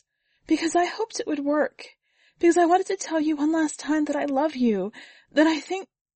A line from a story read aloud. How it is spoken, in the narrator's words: said Sana, trying to stop the sobs that cracked out of her lungs